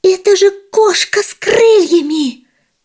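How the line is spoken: Town mouse shouting. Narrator (Russian): закричала городская мышь

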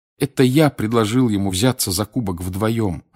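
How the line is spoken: Plain. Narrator (Russian): ответил Гарри

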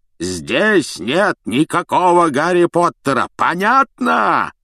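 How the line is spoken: Loud yelling. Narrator (Russian): завопил дядя не хуже Рона

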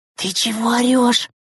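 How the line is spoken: Frightened whisper. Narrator (Russian): Испуганно вытрящив глаза, зашептала Текаева

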